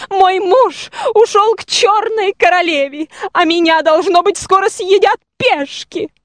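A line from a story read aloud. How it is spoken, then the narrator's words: Loud sobbing. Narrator (Russian): сама черная королева рыдала еще громче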